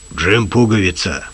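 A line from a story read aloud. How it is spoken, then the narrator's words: Hoarse bass. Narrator (Russian): сказал хриплым басом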